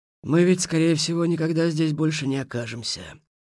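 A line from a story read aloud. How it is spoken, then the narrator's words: Suddenly sad. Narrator (Russian): неожиданно грустно сказал Хмель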